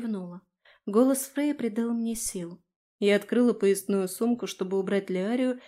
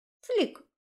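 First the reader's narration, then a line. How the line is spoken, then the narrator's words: Satisfied squeak. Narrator (Russian): удовлетворенно пискнул он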